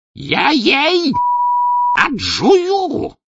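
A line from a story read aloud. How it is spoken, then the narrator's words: Possessed man's wild roar. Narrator (Russian): диким голосом взревел бесноватый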